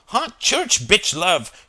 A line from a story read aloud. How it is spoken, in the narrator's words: shouted Chris